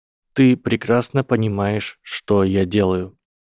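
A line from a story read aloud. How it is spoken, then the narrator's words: Plain. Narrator (Russian): ответил Гарри Поттер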